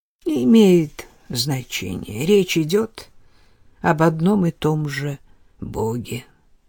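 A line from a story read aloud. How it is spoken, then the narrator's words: Quiet. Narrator (Russian): тихо сказал мне Юг Жан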